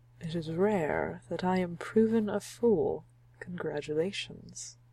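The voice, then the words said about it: Character voice, like a Loki imitation. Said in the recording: “I like the voice that I'm giving him ... it sounds a little bit like my Loki imitation”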